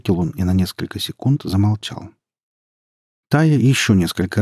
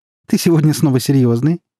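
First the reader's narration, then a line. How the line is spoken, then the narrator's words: Cheerful question. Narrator (Russian): весело спросила девушка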